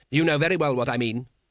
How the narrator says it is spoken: said Vetinari sharply

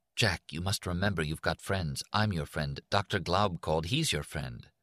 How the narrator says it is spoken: Doreen said in a rapid whisper

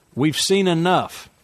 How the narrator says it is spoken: Frank said, raising his voice

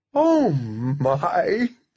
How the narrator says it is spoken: said Opal, giggling behind her fist

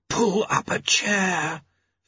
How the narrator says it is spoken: Famine hissed

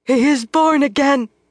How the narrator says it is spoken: Gitara cried

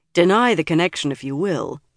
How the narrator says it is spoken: Galad told Elaine gravely

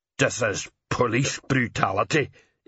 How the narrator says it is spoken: Igneous muttered

